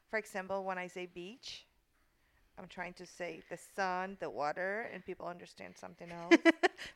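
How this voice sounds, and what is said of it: Strong foreign accent. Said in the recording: “my accent is very strong”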